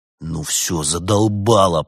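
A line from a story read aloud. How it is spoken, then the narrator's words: Growl. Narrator (Russian): прорычал Феликс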